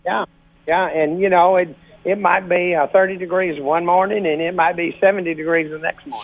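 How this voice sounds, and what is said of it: Slightly raspy voice. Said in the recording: “I got a little bit of a, you know, raspy voice here because of the sinuses and the hot and cold.”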